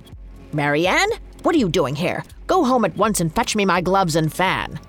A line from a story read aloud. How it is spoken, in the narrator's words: The rabbit crossly declared